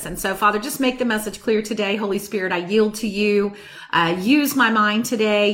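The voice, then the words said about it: Slightly hoarse voice. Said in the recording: “my voice is just a little bit hoarse this week”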